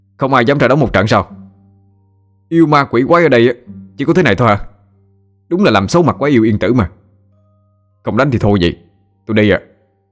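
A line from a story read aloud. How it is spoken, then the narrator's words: Loud shout. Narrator (Vietnamese): tôi lại hét lớn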